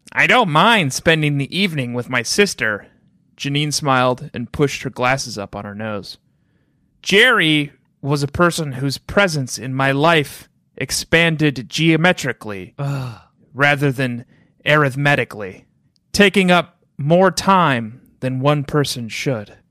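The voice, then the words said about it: Character voice for Janine. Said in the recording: “in my Janine voice.”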